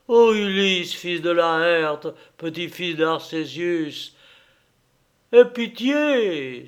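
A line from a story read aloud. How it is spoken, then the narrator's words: Pleading. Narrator (French): suppliait Elpénor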